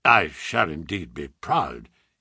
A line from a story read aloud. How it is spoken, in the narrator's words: he murmured